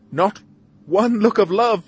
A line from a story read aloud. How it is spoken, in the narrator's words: she cries